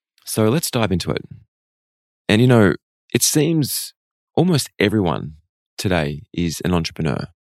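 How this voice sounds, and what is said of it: Unusually deep, worn voice. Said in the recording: “my voice is much deeper and much sexier today... I'm at the end of my tour. I did the last performance last night in Perth, and my voice just held up until this morning... extraordinarily deep tones”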